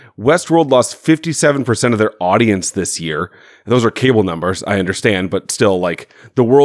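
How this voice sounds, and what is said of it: Usual voice. Nothing is said of it.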